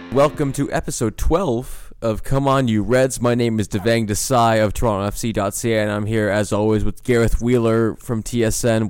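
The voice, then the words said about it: Strained voice, partly lost. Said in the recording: “You said you're losing your voice ... I think, unfortunately, my voice is coming back”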